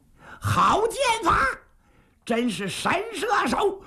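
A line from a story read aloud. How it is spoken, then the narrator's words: Cheering shout. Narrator (Chinese): 是摇旗呐喊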